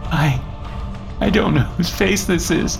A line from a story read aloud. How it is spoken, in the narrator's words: Christina sobbed